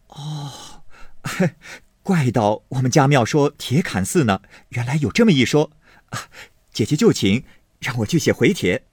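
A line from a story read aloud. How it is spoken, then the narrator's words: Enlightened exclaiming laugh. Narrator (Chinese): 宝玉如醍醐灌顶，哎呦了一声，方笑道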